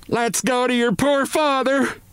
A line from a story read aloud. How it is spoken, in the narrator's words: It was this shout